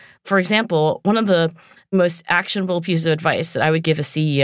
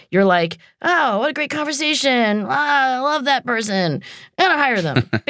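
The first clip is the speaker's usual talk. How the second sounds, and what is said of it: Imitates a CEO's voice. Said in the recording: “Your CEO impression ... that was my CEO impression. I'm just like, I'm going to hire that person, and I'll bang the table.”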